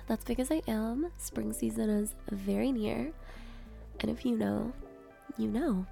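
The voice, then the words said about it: Congested, nasal voice. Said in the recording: “I sound a little congested ... my voice sounds so sick when I'm struggling with allergies”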